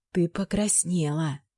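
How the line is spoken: Whisper. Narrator (Russian): прошептала Линда

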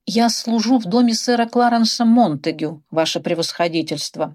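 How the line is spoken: Unsure mumble. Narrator (Russian): неуверенно пробормотал он

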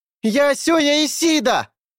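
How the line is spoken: Full-strength shout. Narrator (Russian): Сёя закричал, что есть сила

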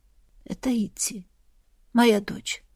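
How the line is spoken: Quiet answer. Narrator (Russian): тихо ответила Сабина

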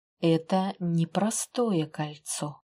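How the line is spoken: Slow. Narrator (Russian): медленно произнес

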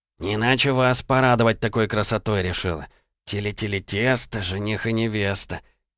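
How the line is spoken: Low singsong, broad grin. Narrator (Russian): вполголоса затянул Жихарь, улыбаясь во всю ширь

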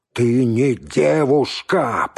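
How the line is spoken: Growled. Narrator (Russian): прорычал он

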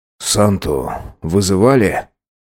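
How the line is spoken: Hoarse, forced out. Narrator (Russian): Выдавил хрипло-кодовое

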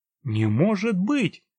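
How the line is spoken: Exclaiming. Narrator (Russian): воскликнул Патрик

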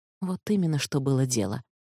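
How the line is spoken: Whispered. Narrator (Russian): прошептала Ишрат

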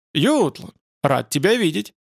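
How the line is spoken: Forced cheerfulness. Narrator (Russian): голос его прозвучал натянуто бодро

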